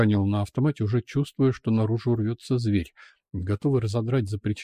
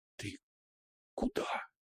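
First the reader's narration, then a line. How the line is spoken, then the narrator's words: Whisper. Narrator (Russian): прошептала Лия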